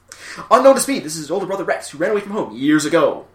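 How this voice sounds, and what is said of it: Imitates fast-talking cartoon dub narrator. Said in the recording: “The dubbing isn't exactly great. Everybody talks very fast... just did a really good impression of it. That was very good.”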